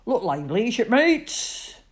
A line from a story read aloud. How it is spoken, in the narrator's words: booms Uncle Sailor Bill